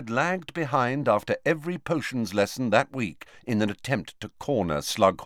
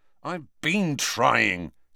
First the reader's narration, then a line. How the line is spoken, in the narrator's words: said Harry crossly